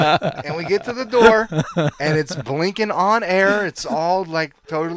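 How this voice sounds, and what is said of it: Usual voice. Nothing is said of it.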